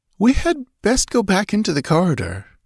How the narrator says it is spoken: Natala ventured nervously

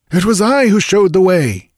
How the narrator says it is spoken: cried a voice

